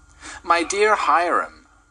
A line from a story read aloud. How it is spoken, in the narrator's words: cried Mrs